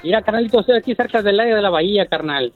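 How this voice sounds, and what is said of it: Formal radio announcer voice. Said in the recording (Spanish): “Tiene voz de locutor. ... ¡Es locutor este vato! ... Es muy formal.”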